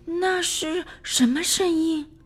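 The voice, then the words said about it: Quiet whispered question. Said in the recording (Chinese): “小声的问”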